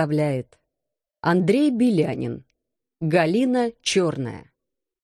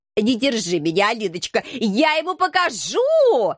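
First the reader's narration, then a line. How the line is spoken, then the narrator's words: Shouting while struggling. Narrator (Russian): кричал профессор, вырываясь из моих рук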